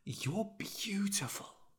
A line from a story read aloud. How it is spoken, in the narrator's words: he whispered